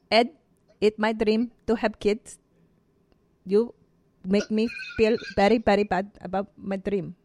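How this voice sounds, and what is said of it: Imitates a Filipino woman's voice. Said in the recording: “doing an impression of the Filipino girl from 90 Day Fiance ... That's so good. ... That was right on.”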